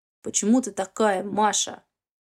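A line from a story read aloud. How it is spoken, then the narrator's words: Hoarse. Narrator (Russian): хрипло говорит Никита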